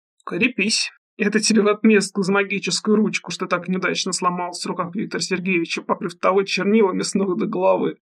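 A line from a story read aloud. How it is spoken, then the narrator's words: Snorted. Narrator (Russian): хмыкнул брат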